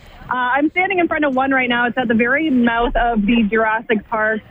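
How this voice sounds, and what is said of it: Hoarse, strained voice. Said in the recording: “I'm losing my voice because it's just been such a competition to try and keep up with these crowds.”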